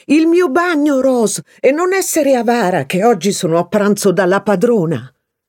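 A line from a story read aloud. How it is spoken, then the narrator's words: Shouting. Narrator (Italian): sparì gridando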